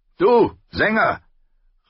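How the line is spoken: Call out. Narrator (German): rief Sir Willis Wode

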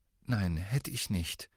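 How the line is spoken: Very quiet. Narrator (German): sagte Ron ganz leise

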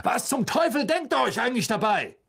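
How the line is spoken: Guard shouting. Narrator (German): ein Wachmann in der Nähe rief

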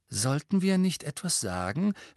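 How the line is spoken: Worried voice. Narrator (German): fragte Hermine mit besorgter Stimme

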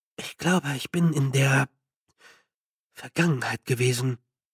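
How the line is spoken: Murmured. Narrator (German): murmelte Feucht

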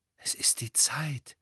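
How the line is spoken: Reverent voice. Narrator (German): sagte Hermine mit ehrfürchtiger Stimme

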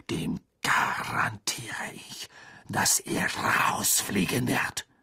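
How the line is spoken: Hissed. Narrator (German): zischte Snape

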